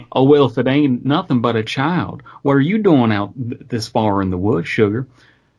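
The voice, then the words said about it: Put-on Southern American accent. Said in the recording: “Maybe I should do that with a southern accent.”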